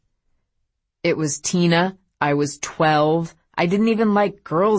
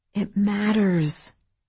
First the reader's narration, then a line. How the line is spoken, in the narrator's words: Eleanor whispered